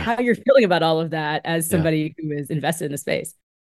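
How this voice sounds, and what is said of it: Smooth, polished radio-host voice. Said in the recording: “Your NPR voice is impeccable. ... It's like so smooth.”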